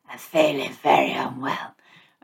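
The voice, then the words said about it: Fake sick, strained voice. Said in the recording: “tilt your head over the armrest, and it kind of stretches out your throat and alters your voice box a little bit”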